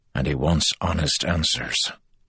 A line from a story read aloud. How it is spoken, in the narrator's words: Andral replied quietly